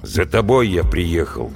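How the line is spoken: Gloomy. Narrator (Russian): мрачно сказал Вася

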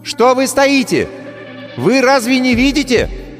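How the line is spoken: Shouted again. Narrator (Russian): вновь крикнула ведьма

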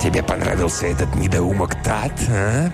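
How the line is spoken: Whispering. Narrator (Russian): прошептал Т

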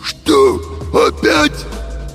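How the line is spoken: Hoarse cartoon-wolf voice. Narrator (Russian): просипел Фима голосом мультяшного волка

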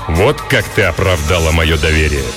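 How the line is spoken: Resonant rich bass. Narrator (Russian): произнес звучным, сочным басом

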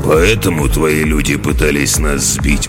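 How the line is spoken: Gloomy question. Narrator (Russian): мрачно поинтересовался Ок

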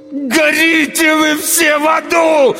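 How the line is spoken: Anguished howl. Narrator (Russian): взвыл я

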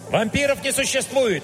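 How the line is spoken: Barked. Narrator (Russian): рявкнул я

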